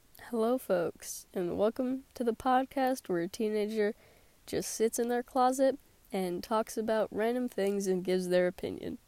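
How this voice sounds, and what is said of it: Sick, sore-throated voice. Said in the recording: “I am sick, so sorry if my voice is a little weird ... talk with a sore throat”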